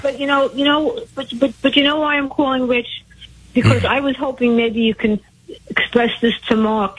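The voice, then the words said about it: Brooklyn accent. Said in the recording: “I remember your voice. Sounds like you're from Brooklyn.”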